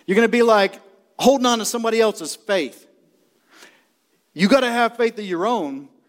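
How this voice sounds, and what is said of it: Shouting, loud preaching. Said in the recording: “You wonder why I'm shouting. I'm shouting ... He gets up there and shouts.”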